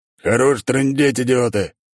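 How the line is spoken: Bark. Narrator (Russian): рявкнул босс

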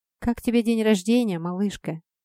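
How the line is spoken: Tender question. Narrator (Russian): ласково спрашивает женщина

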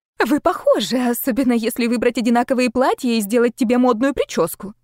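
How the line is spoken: Rapid chatter. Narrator (Russian): затараторила его жена

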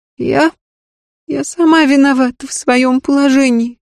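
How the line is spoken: Tearful. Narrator (Russian): сквозь слезы выговорила Александрин

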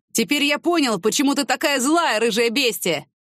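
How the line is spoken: Shouted after someone. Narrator (Russian): крикнул ей вдогонку

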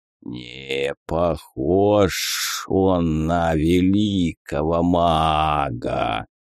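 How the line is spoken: Drawling dead man. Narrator (Russian): протянул центральный мертвец

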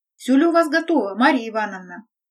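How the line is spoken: Loud question. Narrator (Russian): громко спросил

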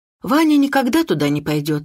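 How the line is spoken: Sigh. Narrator (Russian): вздохнула

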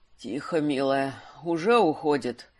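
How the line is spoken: Wounded man muttering. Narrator (Russian): Пробормотал раненый истинный маг

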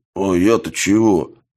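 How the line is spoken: Muffled drone from helmet. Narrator (Russian): Глухо прогудел голос коротышки из-под шлема

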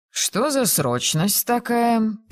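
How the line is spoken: Grumbling. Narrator (Russian): проворчал он при виде кузины

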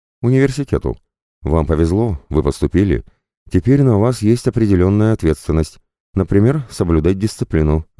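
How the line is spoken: Plain. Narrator (Russian): ответила дама

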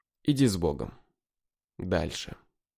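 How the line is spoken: Gentle reply. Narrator (Russian): Мне ласково ответили

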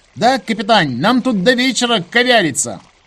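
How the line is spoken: Shouted reply. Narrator (Russian): прокричал в ответ таджикский юноша

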